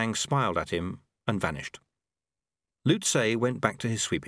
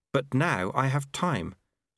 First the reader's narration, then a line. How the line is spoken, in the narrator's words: said Lobsang earnestly